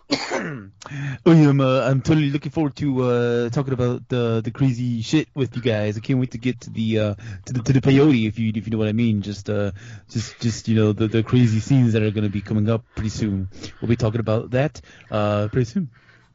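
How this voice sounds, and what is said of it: Impression of another podcast host. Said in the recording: “Can you do that in like my impersonation”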